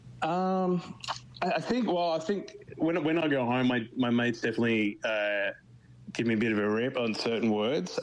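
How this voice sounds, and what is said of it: Australian accent. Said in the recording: “You've got the Aussie accent ... I'm definitely reminded when I'm very strong on my R's”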